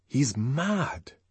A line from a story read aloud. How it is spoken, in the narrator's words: whispered Bernard